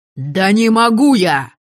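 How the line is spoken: Angry, resigned bark. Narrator (Russian): рявкнул в ответ Полынь зло, обреченно

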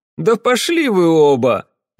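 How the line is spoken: Cheerful. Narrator (Russian): радостно сказал

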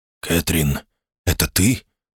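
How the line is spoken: Whispered. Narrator (Russian): раздался шепот

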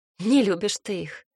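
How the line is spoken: Snort. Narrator (Russian): фыркнула я

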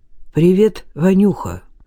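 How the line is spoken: Mumbled. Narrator (Russian): пробормотал Стефан

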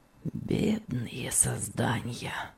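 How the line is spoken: Whisper. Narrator (Russian): Прошептал

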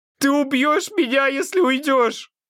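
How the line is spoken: Sobbing. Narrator (Russian): рыдает Адам

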